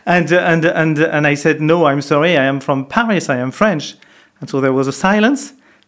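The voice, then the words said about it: French accent. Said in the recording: “yes, I have still a French accent.”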